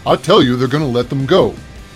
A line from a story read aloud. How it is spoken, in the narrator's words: Butch was shouting